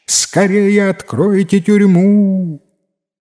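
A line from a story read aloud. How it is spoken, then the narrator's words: Shouting at full strength. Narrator (Russian): Закричал чиновник, что есть мочи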